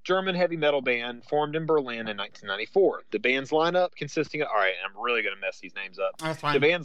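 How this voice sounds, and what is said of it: Thick Southern US accent. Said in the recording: “I am from the South. ... I am a hick. If you haven't noticed already, I'm from the South, and I've got a super thick accent.”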